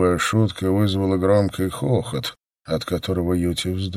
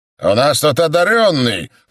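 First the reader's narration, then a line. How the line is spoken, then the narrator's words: Leader shouting. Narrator (Russian): крикнул главарь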